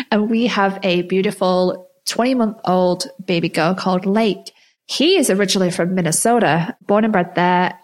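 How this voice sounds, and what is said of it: Mixed English and American accent. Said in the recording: “as you can tell from my accent, I am definitely not from there. I'm definitely not from America... So my accent is mixed now... is she American? Is she Australian? Is she English?”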